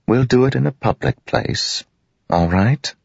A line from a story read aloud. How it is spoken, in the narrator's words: He sighed